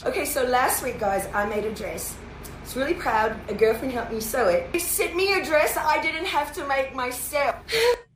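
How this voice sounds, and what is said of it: Attempted Australian accent, sounds English. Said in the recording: “What is up with the accent? ... It's not an English accent. She's attempting an Australian accent. ... It sounds English, too.”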